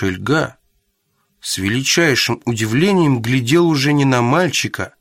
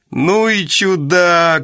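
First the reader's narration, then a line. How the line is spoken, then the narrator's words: Loud laughter. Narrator (Russian): Шельга громко рассмеялся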